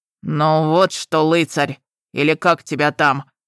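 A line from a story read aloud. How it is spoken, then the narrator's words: Roaring. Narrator (Russian): проревел разрыватель трупов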